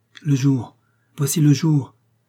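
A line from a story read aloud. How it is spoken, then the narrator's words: Exclaimed close to ear. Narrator (French): s'écria Alice, tout contre mon oreille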